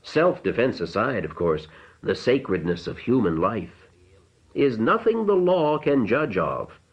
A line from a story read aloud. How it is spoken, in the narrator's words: the older man said dryly